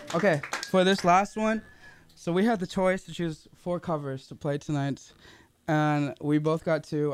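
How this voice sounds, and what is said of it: Worn, slightly lost voice. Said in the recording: “My voice is a little gone”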